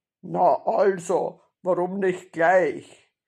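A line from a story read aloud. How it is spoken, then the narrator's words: Satisfied grunt. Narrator (German): Mit zufriedenem Grunzen ... Hotzenplotz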